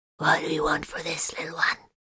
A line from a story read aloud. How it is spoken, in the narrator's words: the Xeno asked in a rasping but quite understandable voice